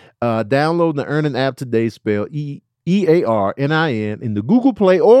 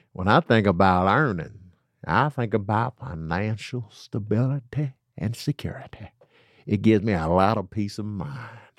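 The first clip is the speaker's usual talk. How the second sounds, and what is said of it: Put-on accent. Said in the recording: “I don't know why I did that accent for that... One of the customers got an accent.”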